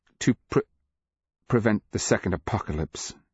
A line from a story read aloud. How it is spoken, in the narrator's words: she stammered